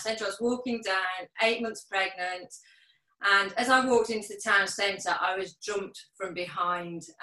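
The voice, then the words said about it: Birmingham area accent. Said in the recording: “Sutton Coldfield's like a nice suburb ... of Birmingham ... as you can tell from my accent.”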